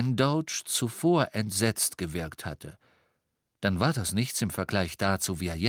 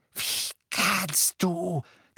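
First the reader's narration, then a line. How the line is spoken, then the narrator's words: Croaking. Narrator (German): krächzte Doge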